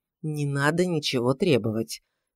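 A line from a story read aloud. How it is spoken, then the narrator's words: Gentle rebuke. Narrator (Russian): мягко осадил его Данилов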